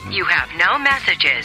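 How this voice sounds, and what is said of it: British accent. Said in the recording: “That is a British accent.”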